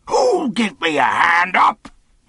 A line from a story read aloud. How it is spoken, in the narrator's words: he roared